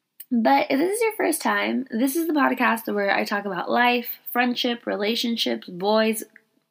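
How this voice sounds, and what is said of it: Sick, unusually deep voice. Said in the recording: “I'm currently under the weather. That's why I sound like a man.”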